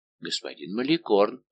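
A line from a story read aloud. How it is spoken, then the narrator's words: Timid servant's reply. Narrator (Russian): робко ответил лакей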